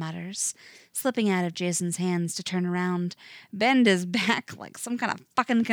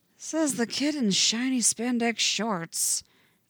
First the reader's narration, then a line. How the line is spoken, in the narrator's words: Jason mutters